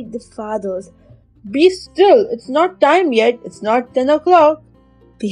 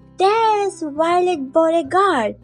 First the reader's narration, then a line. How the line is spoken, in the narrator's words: shouting